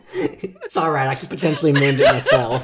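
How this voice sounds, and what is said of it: Southern American accent. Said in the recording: “you cut her so hard she lost her southern accent”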